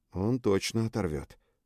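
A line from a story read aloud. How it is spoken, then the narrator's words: Quiet agreement. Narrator (Russian): тихо поддакнул Бронан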